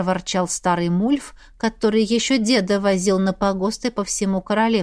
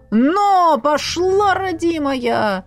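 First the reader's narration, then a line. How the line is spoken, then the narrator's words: Roaring shout. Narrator (Russian): Взревел Мульф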